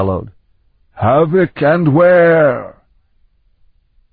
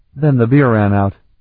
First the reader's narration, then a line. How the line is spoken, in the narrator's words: Talon added dryly